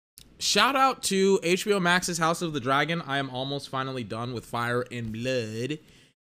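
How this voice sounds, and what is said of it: Strained, worn-out voice. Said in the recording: “my voice is killing me ... I destroyed my voice watching Tua today”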